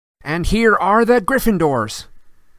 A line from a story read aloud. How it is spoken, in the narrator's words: yelled Lee Jordan, who was acting as commentator as usual